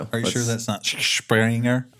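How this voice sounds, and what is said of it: Put-on Irish accent. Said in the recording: “That was pretty good. That actually sounded Irish.”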